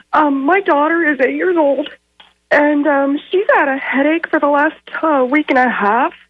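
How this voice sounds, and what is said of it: Voice congested from a cold. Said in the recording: “Please excuse me. I have a cold right now”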